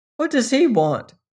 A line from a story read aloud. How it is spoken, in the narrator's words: asked Ledger sharply